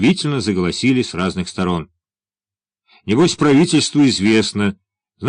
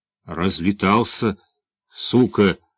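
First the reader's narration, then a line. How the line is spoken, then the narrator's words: Forced out. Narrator (Russian): выдавил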